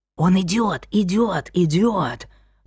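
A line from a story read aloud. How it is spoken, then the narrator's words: Group whispering. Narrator (Russian): шептались они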